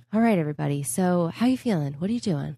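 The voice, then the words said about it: Softer imitation of co-host's radio voice. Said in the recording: “great impression of me. Do I do it in my radio voice? ... That is 50 million decibels softer than I sound at any normal pitch ... I can't go as high pitch as you”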